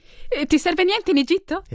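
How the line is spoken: Exclaiming. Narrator (Italian): esclamò

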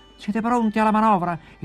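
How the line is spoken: Shouted to distant sailors. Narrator (Italian): il nostro uomo gridò ai suoi marinai che erano a prua

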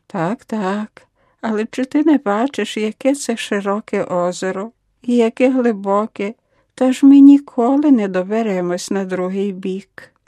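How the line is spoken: Sigh. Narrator (Ukrainian): Лоретта тільки зітхнула

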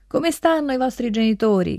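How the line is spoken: Miller woman shouting. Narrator (Italian): grida la mugnaia

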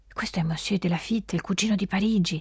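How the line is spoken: Respectful whisper. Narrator (Italian): bisbiglia con rispetto Jeanne Abadie

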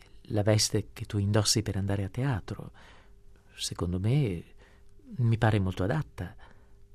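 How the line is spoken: Stammering. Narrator (Italian): balbettò

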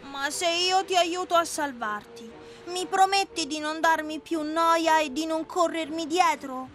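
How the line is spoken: Compassionate. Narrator (Italian): il burattino, che in fondo aveva un cuore eccellente, si mosse a compassione e, voltosi al cane, gli disse

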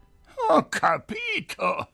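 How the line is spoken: Said laughing. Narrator (Italian): disse allora ridendo

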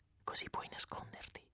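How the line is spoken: Whisper. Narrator (Italian): in un bisbiglio

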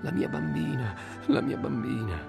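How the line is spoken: Sobbing. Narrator (Italian): singhiozzando

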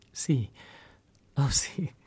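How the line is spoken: Painful stammer. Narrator (Italian): Cam aveva balbettato più penosamente

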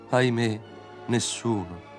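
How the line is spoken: Old swallow sighing. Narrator (Italian): sospirò la rondine più anziana

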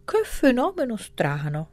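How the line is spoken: Professor exclaiming. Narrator (Italian): esclamò il professore

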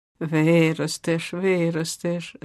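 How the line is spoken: Laughing. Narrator (Ukrainian): засміявся Гриць

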